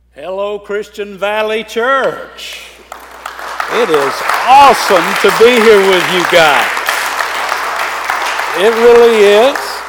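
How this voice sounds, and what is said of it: Southern US accent. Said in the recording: “you'll get used to my accent here in a little while... I don't come out of the South too much... down in the South, in the Bible Belt, where Greg and I come from, and I still live”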